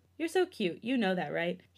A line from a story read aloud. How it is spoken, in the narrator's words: He chuckled at the older, finding everything about him adorable